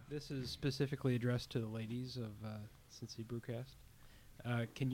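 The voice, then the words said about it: Put-on radio announcer voice. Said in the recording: “This is my radio voice”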